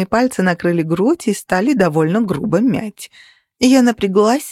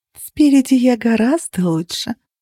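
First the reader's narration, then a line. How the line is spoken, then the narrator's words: Sultry purr. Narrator (Russian): промурлыкала я, имитируя манеру проституток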